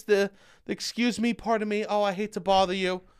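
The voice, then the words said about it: Timid, apologetic Midwestern-style voice. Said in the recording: “that timid energy, that Midwestern vibes”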